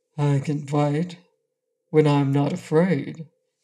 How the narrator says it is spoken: said calmly

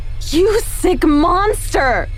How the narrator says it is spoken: I screamed

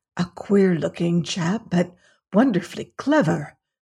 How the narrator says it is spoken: whispered Mr

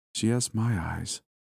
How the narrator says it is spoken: said in a dreamy tone

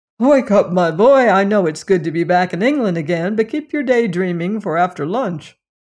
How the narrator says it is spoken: Cairn, forced a laugh, cried

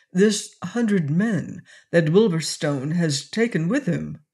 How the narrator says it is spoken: his lordship interposed in his level, cultured voice

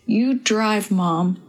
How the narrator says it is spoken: Bill said through clenched teeth

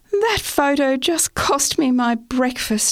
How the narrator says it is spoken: I sighed

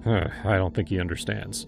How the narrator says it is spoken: muttered

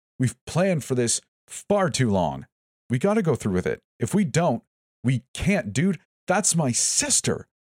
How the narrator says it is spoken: shouted something from a distance, angrily responded

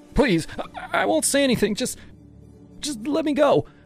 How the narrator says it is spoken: I begged, my voice cracking

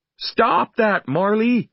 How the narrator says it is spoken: I cried

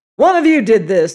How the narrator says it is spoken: he shouted

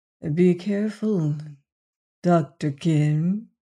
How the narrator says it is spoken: he said evenly

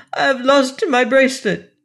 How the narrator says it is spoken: she cried in Italian, and then turning to the passengers, she repeated the cry in very good English

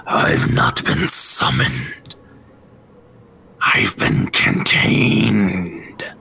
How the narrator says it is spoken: the tree and you hear a kind of a raspy

